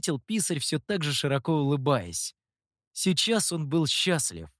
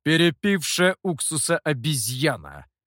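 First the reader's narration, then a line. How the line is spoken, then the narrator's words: Through gritted teeth. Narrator (Russian): процедил Гуэй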